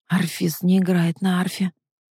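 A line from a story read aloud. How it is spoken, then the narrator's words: Agitated whisper. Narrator (Russian): шептала тетушка, причем говорила она это очень взволнованно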